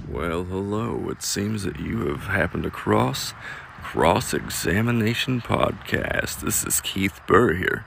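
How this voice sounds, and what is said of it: Southern drawl. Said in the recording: “Do you hear that southern drawl? Yeah. I bet you can't help but to hear it because I cannot turn it off.”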